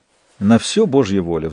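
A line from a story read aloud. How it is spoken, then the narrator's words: Heavy sigh. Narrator (Russian): вздохнул он тяжело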